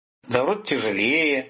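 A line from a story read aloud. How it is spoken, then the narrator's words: Muttering. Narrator (Russian): пробормотал Виктор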